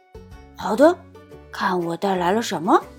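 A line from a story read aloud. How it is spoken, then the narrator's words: Hushed voice. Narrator (Chinese): 多多也压低声音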